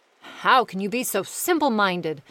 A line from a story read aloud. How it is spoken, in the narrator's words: said the godfather